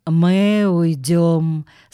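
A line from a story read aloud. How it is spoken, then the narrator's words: Slow. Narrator (Russian): сказал он медленно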